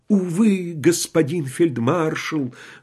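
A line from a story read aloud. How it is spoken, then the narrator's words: Sighing dying warrior. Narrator (Russian): вздохнул умирающий воин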